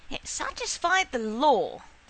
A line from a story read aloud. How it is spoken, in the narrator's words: the old woman said sharply